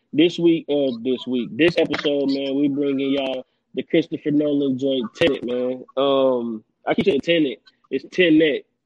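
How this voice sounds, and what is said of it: Country accent. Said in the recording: “if I sound like I'm adding the N in there ... That's my country accent.”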